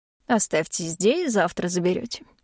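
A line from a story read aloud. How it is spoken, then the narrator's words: Dry. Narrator (Russian): ответила сухо Корделия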